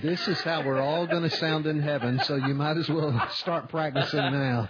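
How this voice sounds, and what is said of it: Southern US accent. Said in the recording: “he's got one of them southern accents”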